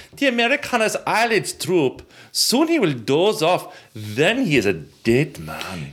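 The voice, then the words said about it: Bad put-on German accent. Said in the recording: “That's a terrible, terrible, terrible German accent. ... That's a horrible accent.”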